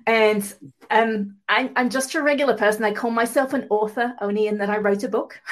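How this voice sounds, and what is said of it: Mid-Atlantic English accent. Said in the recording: “I'm from England originally. I live in California now, have done for a long time, so I have a mid-Atlantic accent.”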